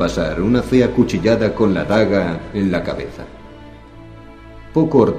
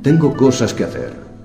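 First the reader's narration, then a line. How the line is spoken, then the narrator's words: Plain. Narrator (Spanish): dijo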